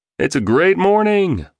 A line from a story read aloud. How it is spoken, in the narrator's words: one shouted